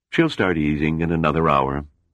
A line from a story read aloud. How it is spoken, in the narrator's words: Farquhar replied